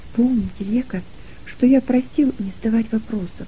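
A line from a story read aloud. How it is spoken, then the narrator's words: Whispered close to ear. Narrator (Russian): прошептал он ей на ухо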